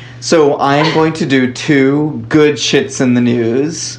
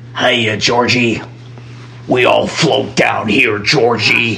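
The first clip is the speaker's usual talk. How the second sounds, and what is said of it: Creepy killer clown voice. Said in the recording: “Ooh, that was creepy... a good creepy laugh... I'm a killer clown... Doesn't that sound like a killer clown... my impression of Pennywise”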